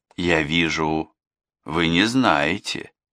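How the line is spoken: Plain. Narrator (Russian): сказал он

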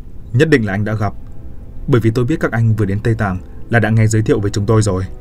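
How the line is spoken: Smiling speech. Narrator (Vietnamese): Bà Tàng mỉm cười nói

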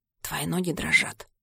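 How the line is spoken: Whisper. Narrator (Russian): замечает он шепотом

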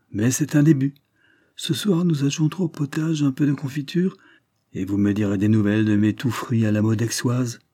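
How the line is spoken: Cheerful announcement. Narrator (French): annonça gaiement

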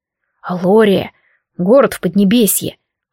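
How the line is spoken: Reverent whisper. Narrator (Russian): с благоговением прошептал Морт

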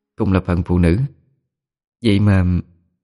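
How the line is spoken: Sighing. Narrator (Vietnamese): Liễu Thi nghe vậy thì thở dài

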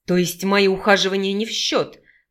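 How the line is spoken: Hissed. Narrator (Russian): прошипел он

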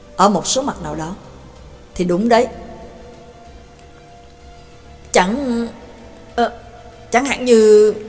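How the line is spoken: Stern. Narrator (Vietnamese): Pháp sư Á La nghiêm giọng nói với anh ta

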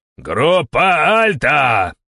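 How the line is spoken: Yelling. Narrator (Russian): заорал я

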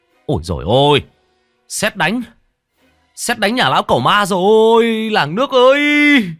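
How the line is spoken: Man wailing loudly. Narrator (Vietnamese): Có tiếng một người đàn ông đứng trước ngõ rú lên

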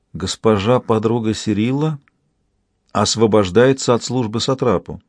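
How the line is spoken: Quiet. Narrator (Russian): негромко проговорила

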